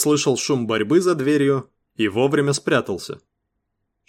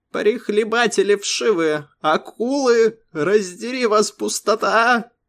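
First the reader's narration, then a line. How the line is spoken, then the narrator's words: Loud shrieking. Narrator (Russian): Верещал он так громко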